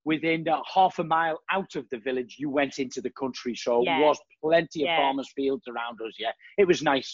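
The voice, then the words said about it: Scouse Liverpool accent. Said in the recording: “Very much didn't lose the Scouse accent ... I haven't quite lost my accent ... I managed to keep the Liverpool accent a little bit”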